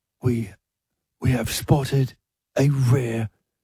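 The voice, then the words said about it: Nature documentary narrator impression. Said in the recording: “How would you do David Attenborough? ... Yes, that's better.”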